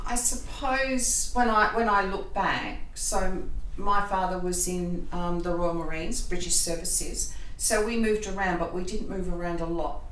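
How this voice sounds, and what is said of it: Australian accent. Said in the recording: “my impediment is my Australian accent... So I sound like a stick no matter what.”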